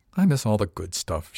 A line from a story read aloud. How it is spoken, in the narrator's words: muttered